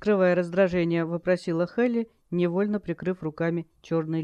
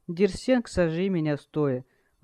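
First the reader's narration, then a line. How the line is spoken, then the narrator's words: Growl. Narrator (Russian): рыкнул Галар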